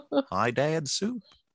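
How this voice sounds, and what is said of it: Goofy impression. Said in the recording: “doing a Goofy impression”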